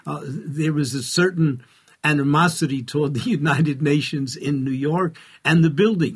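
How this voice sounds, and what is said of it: New York accent. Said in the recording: “as a New Yorker, as you can easily tell by my accent”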